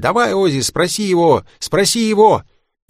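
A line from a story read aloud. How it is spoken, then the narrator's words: Group shouting. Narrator (Russian): Все парни закричали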